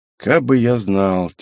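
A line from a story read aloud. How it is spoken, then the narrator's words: Heavy-sighing reply. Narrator (Russian): тяжко вздохнув, ответил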